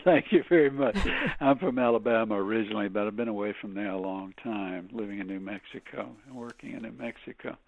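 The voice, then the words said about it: Slightly Southern American accent. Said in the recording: “your slightly Southern accent is very sexy”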